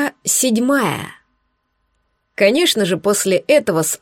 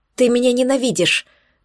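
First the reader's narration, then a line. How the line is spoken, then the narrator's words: Panicked rapid chatter. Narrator (Russian): Тараторила я в панике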